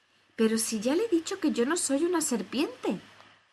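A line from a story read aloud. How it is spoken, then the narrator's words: Exclamation. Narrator (Spanish): exclamó Alicia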